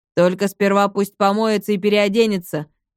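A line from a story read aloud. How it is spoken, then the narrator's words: Disgusted grumble. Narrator (Russian): брезгливо проворчал третий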